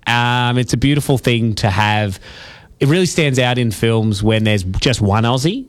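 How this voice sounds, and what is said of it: Australian accent. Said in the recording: “I bloody love our accent. ... It's a great accent. ... I just love how lazy it is. It sounds so comfortable. It sounds friendly.”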